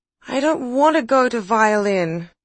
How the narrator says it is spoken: Olivia had whined

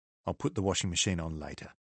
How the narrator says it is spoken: Liz said quietly

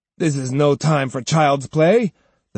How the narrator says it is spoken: the samurai said scornfully

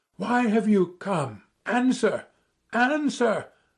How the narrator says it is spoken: I cried, hardly knowing what I was doing

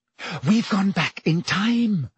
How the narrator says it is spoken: Hermione whispered

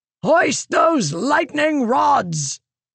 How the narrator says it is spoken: Teofil shouted, his voice sounding muted to her ears

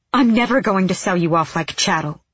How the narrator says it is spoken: she snapped

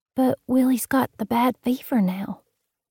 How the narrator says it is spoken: she barely whispered, her eyes shimmering

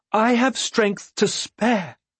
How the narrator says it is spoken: she pleaded

